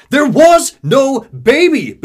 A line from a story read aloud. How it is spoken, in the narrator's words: Booker shouts